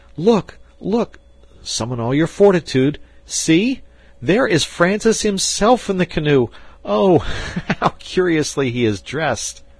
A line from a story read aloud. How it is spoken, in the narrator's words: cried they at once